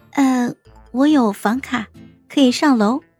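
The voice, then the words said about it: Quiet, soft voice. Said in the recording (Chinese): “小声的”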